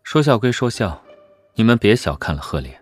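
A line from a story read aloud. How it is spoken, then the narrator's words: Calm, flat tone. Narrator (Chinese): 萧景琰倒是沉得住气，淡淡道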